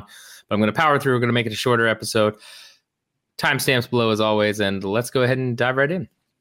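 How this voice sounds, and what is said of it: Slightly lower, sick-sounding voice. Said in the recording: “my voice is a little bit lower. I am still sick with whatever's going on.”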